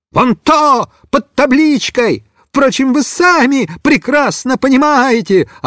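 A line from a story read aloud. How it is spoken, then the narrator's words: Yelling. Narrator (Russian): орал Бобиш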